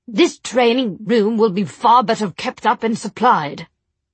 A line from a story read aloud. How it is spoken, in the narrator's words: he said, pitching his voice loud enough for Will to hear